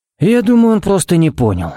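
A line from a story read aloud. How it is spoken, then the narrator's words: Sighing. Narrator (Russian): вздохнул Харри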